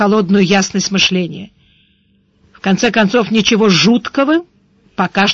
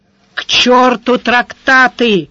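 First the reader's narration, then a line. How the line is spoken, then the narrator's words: Growl. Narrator (Russian): рычал сварог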